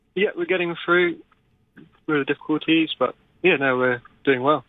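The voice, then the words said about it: British accent. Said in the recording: “a bit of an accent there. It sounds as though you've come over from the UK”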